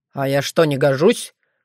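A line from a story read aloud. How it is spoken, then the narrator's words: Sullen clarifying. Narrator (Russian): хмуро уточнил Крамиш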